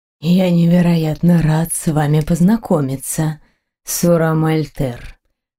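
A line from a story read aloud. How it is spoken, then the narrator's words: Near purr. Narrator (Russian): почти промурлыкал принц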